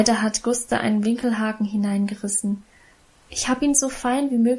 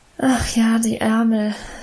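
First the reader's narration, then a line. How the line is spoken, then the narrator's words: Sighing. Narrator (German): seufzte Emma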